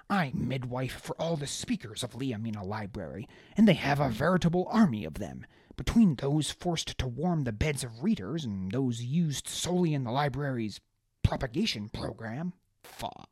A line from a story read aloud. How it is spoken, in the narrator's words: she spat